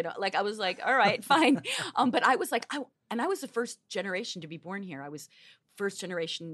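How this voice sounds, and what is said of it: Usual voice. Nothing is said of it.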